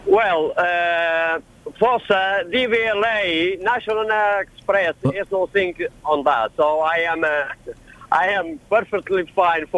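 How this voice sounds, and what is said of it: Faint foreign accent. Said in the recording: “you've got a very, very faint accent.”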